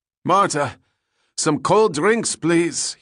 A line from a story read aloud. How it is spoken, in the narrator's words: shouted to his servant